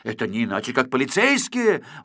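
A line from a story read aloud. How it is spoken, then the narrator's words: Exclamation. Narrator (Russian): воскликнул Квантик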